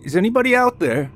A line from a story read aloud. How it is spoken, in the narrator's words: James yelled again into the woods